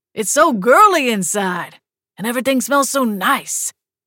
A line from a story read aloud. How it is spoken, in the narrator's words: he yelled